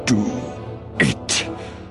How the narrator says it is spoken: rasped Dooku

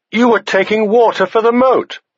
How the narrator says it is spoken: Egg said loudly

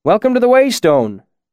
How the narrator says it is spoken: the innkeeper called out from behind the bar

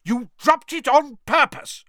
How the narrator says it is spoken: roared Mr

